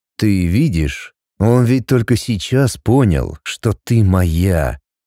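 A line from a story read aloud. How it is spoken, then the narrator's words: Icy voice. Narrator (Russian): Ледяным голосом проговорил Макс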